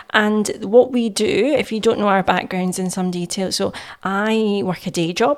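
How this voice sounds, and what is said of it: Scottish accent. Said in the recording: “we're based up here in Scotland, as you can tell by my accent.”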